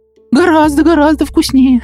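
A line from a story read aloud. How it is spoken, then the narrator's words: Joyful. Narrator (Russian): радостно сказал Сластик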